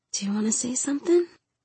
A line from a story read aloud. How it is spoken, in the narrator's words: She whispered